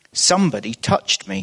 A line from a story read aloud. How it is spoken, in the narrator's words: said Jesus